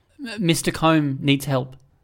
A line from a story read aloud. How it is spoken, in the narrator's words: Addison said